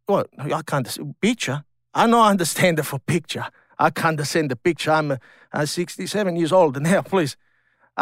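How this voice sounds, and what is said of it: Foreign-accented English. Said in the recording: “I love the accent when you say fat”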